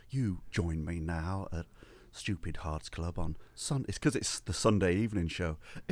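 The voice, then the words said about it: Soft, hushed whispery radio voice. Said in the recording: “whispering Bob bloke? You're like talking like this ... I'm talking like whispering Bob”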